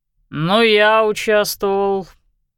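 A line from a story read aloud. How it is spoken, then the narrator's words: Grudging, through gritted teeth. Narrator (Russian): процедил Барсуков через губу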